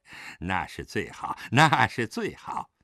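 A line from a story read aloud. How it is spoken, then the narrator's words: Laughing. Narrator (Chinese): 陈松涛笑道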